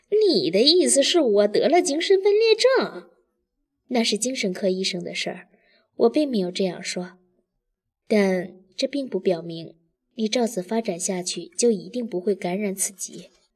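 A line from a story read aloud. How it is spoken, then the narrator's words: Sneering. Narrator (Chinese): 大方冷笑道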